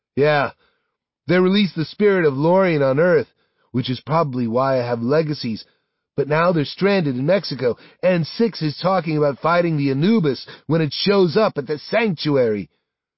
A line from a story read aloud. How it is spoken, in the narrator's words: Sam says breathlessly